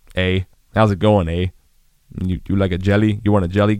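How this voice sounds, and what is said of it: Imperfect put-on Canadian accent. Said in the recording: “My Canadian accent's not the best, but I'm trying to represent”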